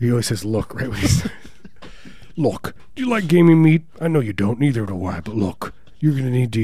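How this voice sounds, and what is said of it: Usual voice. Nothing is said of it.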